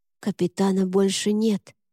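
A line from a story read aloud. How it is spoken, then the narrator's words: Grim boy's whisper. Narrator (Russian): мрачно прошептал мальчишка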